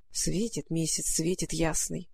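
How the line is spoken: Muttered to herself. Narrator (Russian): пробормотала про себя Маруся

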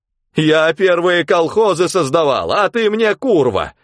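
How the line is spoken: Loud angry shout. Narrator (Russian): Громко закричала теща

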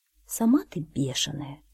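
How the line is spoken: Quiet. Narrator (Russian): тихо сказала кошка

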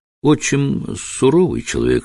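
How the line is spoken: Plain. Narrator (Russian): сказала она

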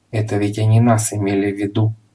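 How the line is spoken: Whisper. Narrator (Russian): шепнул ему господин Пепперминт

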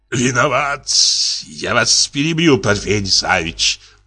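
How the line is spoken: Groaning. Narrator (Russian): простонал Зельтерс

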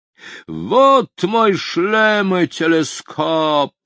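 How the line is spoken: Loud shout. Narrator (Russian): громко крикнул мистер Хоп

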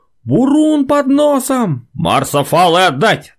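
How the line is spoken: Sudden unnaturally loud shout, sailor. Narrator (Russian): матросик вдруг крикнул неестественно громким голосом

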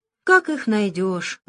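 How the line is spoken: Sighing pirates. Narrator (Russian): вздохнули пираты

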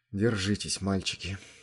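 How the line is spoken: Whispered. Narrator (Russian): шепотом сказал Захар

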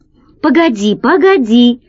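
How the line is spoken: Exclaiming. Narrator (Russian): воскликнул Гайдо

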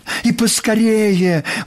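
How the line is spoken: Exclaimed. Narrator (Russian): воскликнула Нюша

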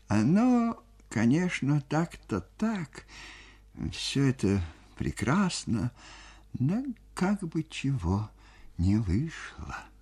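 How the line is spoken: Quiet. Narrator (Russian): тихо говорил

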